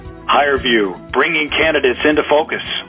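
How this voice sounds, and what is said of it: Announcer-style radio voice. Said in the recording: “in your best radio voice.”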